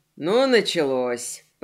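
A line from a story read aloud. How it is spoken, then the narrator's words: Grumbling. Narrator (Russian): пробурчал Морли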